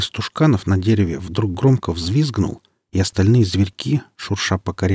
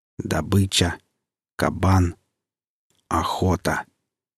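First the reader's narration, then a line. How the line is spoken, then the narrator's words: Hissing. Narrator (Russian): Пенка зашипела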